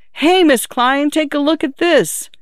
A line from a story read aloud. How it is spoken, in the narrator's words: they hollered